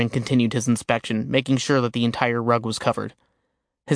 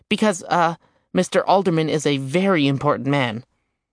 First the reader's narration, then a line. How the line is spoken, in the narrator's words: she hastily added